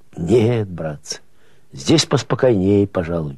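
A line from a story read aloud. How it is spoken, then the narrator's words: Lisping. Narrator (Russian): прошепелявил он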